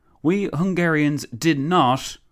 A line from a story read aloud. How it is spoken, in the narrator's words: the Countess exclaimed